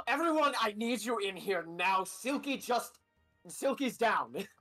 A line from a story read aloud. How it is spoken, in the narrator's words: Adrian's gonna yell